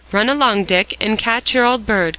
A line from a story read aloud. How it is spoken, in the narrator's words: cried Jasper